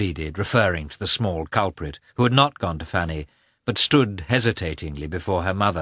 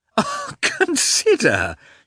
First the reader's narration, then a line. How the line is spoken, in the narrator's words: went on, laughing